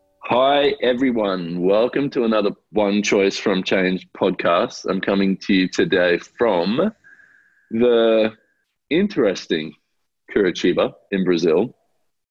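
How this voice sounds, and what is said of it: Changed, unusually sexy voice. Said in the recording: “I have my sexy voice on today because I landed in Brazil yesterday and went, what happened to my voice?”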